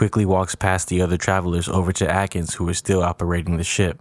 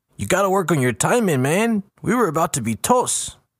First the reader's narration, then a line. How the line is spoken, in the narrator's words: Lopez yelling over to Atkins